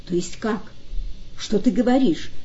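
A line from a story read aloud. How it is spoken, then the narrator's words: Exclaimed. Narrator (Russian): воскликнул Бейтман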